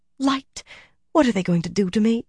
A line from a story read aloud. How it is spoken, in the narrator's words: Her mouth half-formed the question